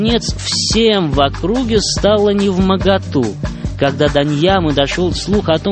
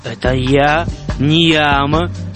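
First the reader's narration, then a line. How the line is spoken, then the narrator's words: Stern. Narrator (Russian): Ньяма строго сказал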